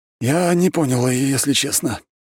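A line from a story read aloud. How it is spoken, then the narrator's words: Sighing. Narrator (Russian): вздохнул Марк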